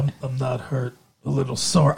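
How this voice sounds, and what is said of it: Tommy Lee Jones impression. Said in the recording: “I wonder if I can do his voice. ... I can hear his voice in the um like I don't care, you know.”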